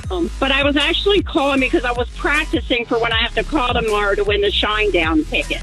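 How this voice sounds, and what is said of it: Baltimore accent. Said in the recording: “You sound like you're from Baltimore ... my accent”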